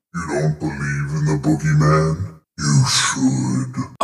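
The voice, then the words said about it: Scary spooky voice. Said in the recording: “do a scary voice”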